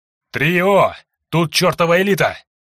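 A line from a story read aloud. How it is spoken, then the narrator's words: Yelling. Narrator (Russian): заорал Андрей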